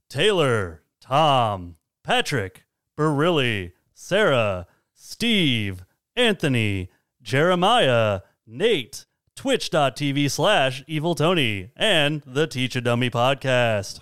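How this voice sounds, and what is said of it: Smooth sexy radio announcer voice. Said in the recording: “we got a sexy radio voice this time”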